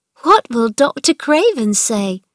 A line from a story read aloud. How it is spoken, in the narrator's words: cried Mary, excited